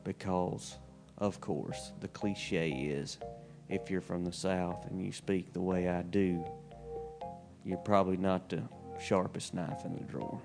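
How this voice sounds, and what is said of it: Slow-talking Southern US accent. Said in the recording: “my slow-talking southern accent”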